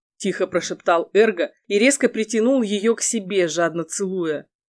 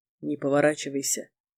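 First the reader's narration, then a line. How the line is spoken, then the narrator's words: Quiet. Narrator (Russian): тихо сказал Эрго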